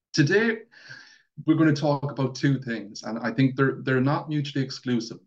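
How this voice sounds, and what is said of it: Thick Mayo Irish accent. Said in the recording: “I'm from Mayo, so I have that big, thick accent”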